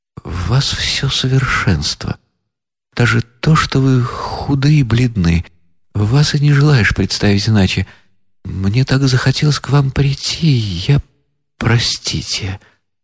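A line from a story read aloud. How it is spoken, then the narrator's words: Hurried agitated whisper. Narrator (Russian): князь с необыкновенным волнением спеша прошептал ей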